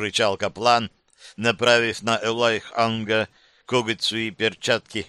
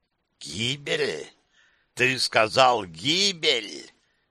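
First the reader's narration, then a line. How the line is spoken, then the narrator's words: Hiss. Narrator (Russian): прошипел Эйтрах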